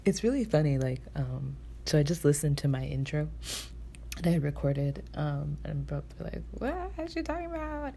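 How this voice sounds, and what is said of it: Low, quiet voice. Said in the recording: “my voice is really low. I just don't feel like talking very loud.”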